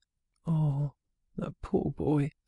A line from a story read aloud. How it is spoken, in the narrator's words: sighed Mrs